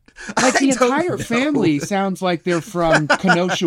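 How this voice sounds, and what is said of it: Usual voice. Nothing is said of it.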